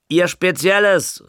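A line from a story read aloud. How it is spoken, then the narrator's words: Calling out. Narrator (German): rief er zu Muschler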